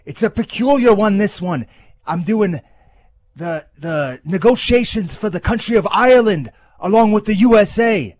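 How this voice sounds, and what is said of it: Bad Conor McGregor Irish accent. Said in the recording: “What in God's name accent was that? What was that? ... A limey? ... God, that was horrible. Horrible.”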